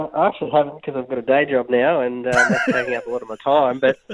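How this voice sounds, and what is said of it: Usual voice. Nothing is said of it.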